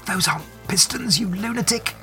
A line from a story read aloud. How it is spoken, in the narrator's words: Mina gasps